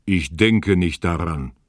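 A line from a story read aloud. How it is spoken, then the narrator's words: Dragon's roar. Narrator (German): brüllte der Drache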